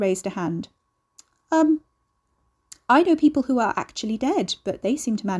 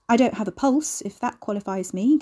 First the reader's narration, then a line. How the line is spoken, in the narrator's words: Carrie said